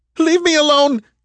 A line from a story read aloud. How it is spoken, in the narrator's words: she cried